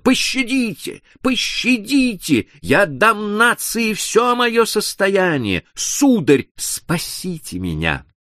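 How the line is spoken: Screaming again. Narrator (Russian): Госпожа Дюбари снова закричала

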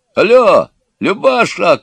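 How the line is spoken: Shout. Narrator (Russian): кричал Егор

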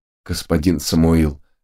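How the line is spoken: Trembling voice. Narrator (Russian): ответила Христина дрожащим голосом

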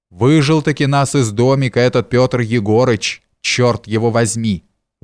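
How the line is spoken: Angry grumbling. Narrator (Russian): ворчал я, не на шутку рассердясь

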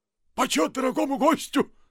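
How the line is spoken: Rapid shouting. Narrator (Russian): прокричал он скороговоркой

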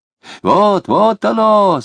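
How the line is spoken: Delighted sweet exclamation. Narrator (Russian): с явным восхищением и сладостно воскликнул брат Василий

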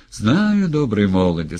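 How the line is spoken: Speech then loud laughter. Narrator (Russian): сказал Гринька и захохотал

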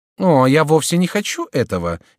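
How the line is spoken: Cheerful. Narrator (Russian): весело сказала герцогиня

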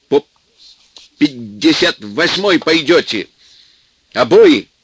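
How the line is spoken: Shouting. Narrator (Russian): кричал Сеня

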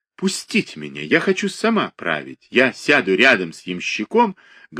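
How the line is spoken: Speaking loudly. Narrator (Russian): говорила громко Софья Львовна

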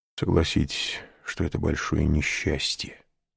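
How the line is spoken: Hollow voice. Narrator (Russian): сказал он глухим голосом

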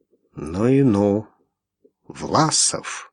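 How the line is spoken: Stunned, to himself. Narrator (Russian): ошеломленный сказал себе Иван

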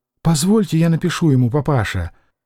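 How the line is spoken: Quiet, trembling with joy. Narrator (Russian): вздрагивая от радости и вся красная, тихо попросила Любовь

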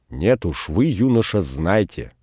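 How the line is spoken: Angry. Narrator (Russian): сердито сказал Богданов

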